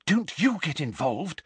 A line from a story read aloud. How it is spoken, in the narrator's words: Hermione whispered urgently